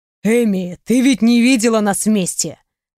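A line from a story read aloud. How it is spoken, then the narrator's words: Snorting. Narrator (Russian): хмыкнул он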